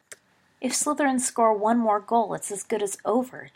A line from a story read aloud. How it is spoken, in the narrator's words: James groaned